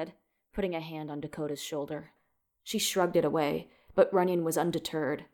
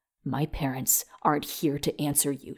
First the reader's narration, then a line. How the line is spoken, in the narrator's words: she spat